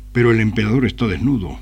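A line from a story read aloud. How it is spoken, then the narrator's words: Boy exclaiming. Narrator (Spanish): un chico exclamó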